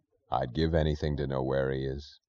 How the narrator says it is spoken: he said, his voice low

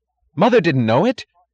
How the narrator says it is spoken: cried, cried louder

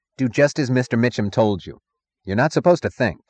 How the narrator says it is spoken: The road foreman snapped

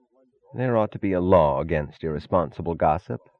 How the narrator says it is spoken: said Taggart sullenly

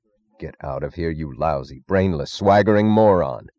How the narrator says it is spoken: snarled Dr

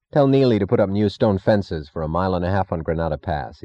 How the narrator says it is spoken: he said

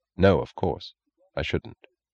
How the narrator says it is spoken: He answered quietly, gravely

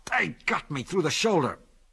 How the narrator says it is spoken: snarled the constable

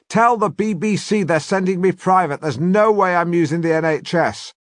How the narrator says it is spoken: scream at the top of my voice

